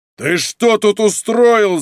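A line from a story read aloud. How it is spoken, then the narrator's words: Shouting. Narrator (Russian): заорал полковник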